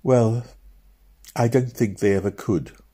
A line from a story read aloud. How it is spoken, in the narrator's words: answered sadly